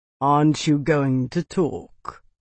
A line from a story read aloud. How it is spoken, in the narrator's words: Aldrich asked, his voice a lazy drawl